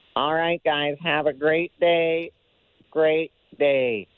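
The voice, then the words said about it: Imitates another person's voice. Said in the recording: “your Phil Kessel imitation ... That was pretty good, eh? ... not, not bad.”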